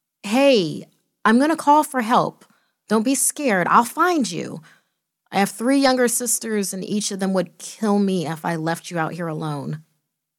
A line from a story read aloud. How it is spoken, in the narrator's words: I cried out